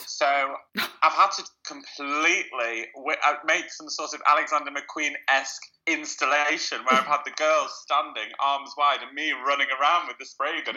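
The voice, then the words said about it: Nasal, congested sick-sounding voice. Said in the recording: “I sound a bit like Squidward ... because I am a bit sick, so I'm a bit nasal”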